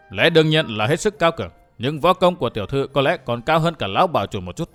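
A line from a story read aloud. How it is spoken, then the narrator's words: Stern. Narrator (Vietnamese): Vũ Á Vinh nghiêm giọng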